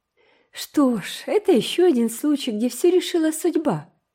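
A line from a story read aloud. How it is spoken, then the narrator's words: Laughing. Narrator (Russian): засмеялась Эйн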